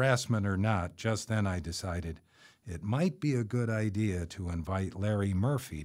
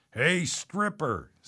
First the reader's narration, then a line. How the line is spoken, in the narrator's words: shouted from across the smoke-filled room